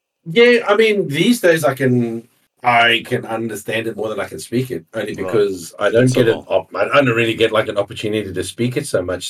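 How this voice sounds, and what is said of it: English-speaking South African accent. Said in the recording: “My accent is common amongst more English-speaking South Africans.”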